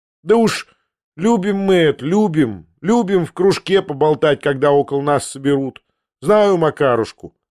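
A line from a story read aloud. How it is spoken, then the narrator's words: Plain. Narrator (Russian): сказала Татьяна Павловна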